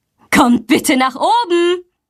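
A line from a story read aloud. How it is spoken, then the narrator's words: Calling out. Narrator (German): ruft sie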